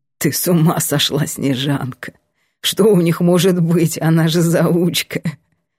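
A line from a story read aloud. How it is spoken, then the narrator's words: Quiet guffawing. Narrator (Russian): Лавр тихо ржет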